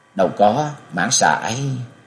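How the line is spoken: Smiling voice. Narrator (Vietnamese): Thương Yến lúc này mỉm cười nói

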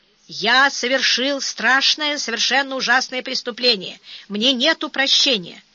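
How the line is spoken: Hoarse, nervous young man. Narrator (Russian): Молодой человек еще раз нервно сглотнул, хрипло выдавил

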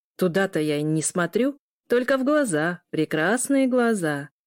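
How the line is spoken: Loud, amid giggles. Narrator (Russian): громко произнес Митя под смешки девушек

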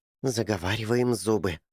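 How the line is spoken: Whisper. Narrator (Russian): прошептал Эрни

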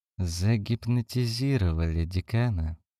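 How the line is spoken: Mutter. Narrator (Russian): пробормотал кто-то

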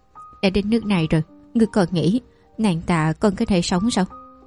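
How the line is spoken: Soft laugh, slow speech. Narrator (Vietnamese): Tề Lam Mạn nhẹ nhàng cười, chậm rãi nói

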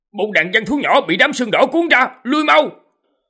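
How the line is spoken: Alarmed shout. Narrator (Vietnamese): sắc mặt của Lý Nguyên Lôi đại biến, ... hét lớn

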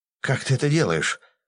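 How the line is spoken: Frightened breathless exhale. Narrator (Russian): выдохнул вжавшийся в кресло мудак

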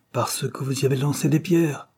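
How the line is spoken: Exclaimed. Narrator (French): s'écria Madame Dare

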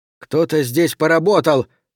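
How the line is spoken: Shouting. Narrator (Russian): крикнул он

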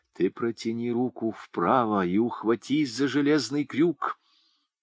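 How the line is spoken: Sudden quiet whisper. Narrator (Russian): вдруг кто-то тихо шепнул ему на ухо

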